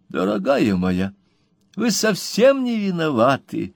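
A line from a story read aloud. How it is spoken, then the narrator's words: Gentle, tender. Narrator (Russian): ласково сказал ей мистер Пиквик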